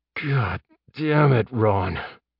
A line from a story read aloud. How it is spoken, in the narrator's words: Jeb groaned